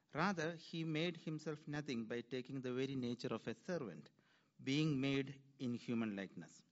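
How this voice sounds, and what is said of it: Speaker with a foreign accent. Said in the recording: “I love his accent”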